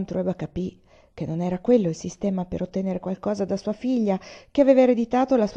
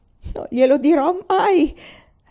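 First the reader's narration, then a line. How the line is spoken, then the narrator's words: Sobbed. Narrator (Italian): singhiozzò lei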